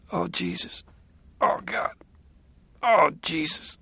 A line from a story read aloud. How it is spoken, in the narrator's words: he said weakly